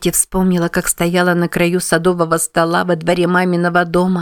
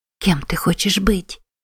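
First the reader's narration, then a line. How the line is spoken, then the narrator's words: Whisper. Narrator (Russian): прошептала Саманта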